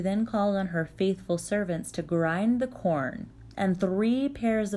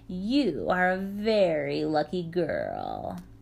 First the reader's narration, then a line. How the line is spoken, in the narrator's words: Pleased in a way, but not pleased because she could find no fault, Baba Yaga sneered